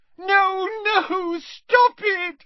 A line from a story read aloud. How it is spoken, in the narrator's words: squealed Moaning Myrtle, her voice echoing loudly around the tiled room